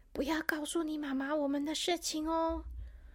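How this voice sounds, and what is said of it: Whispered, hushed voice. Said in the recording (Chinese): “小声”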